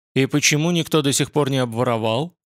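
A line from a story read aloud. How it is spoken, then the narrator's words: Curt mutter. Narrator (Russian): буркнул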